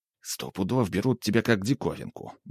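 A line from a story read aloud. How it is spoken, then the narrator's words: Grumbled. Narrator (Russian): буркнул Тимоха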